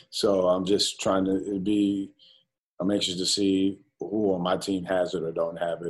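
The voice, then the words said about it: Mild New York accent. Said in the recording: “your New York accent a little bit. Maybe it's not as thick as it might have been 20 years ago”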